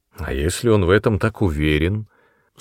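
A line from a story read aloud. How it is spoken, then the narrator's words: Dry interruption. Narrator (Russian): сухо перебила ее мачеха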